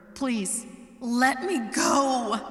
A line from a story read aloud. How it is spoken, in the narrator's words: she shouted